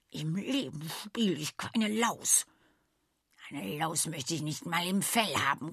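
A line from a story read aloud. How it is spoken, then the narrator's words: Growled. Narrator (German): knurrte Daly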